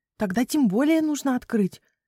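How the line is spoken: Joyful squeal. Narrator (Russian): радостно взвизгнула Хвостик

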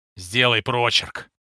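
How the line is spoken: Gruff mutter. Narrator (Russian): буркнул вахмистр

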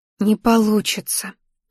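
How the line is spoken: Whispered warning. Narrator (Russian): шепотом предупредила

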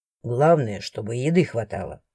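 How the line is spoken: Grumbling. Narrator (Russian): проворчал Астор

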